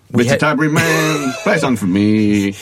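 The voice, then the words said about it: Imitates another person's singing voice. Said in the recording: “There's a lot of tune in that impression.”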